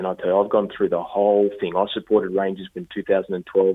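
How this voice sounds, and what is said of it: Australian accent. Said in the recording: “I'm an Aussie ... people hear my accent and think, "Oh, you're not credible."”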